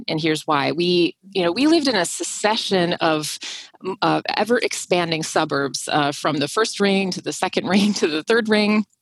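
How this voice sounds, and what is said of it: Minnesota accent. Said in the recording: “if my accent doesn't give me away, I am from Minnesota”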